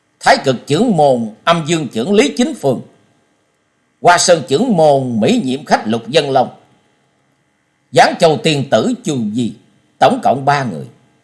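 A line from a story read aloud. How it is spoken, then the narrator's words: Loudly repeated. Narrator (Vietnamese): Trần Lâm to tiếng lặp lại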